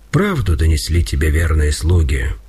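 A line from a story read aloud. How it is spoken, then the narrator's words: Calm reply. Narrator (Russian): спокойно отвечал Пантелеймон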